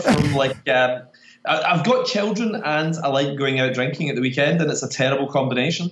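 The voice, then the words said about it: Scottish accent. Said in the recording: “a hangover and a Scottish accent. Nobody's going to understand a word of this podcast.”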